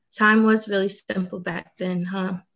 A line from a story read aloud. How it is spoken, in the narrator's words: Remy asked